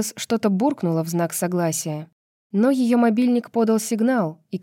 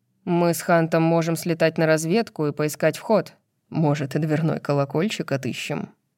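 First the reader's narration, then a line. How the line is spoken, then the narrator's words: Grim smirk. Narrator (Russian): Мрачно усмехнулся Хант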